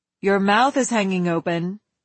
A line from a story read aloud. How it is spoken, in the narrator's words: Big Mother said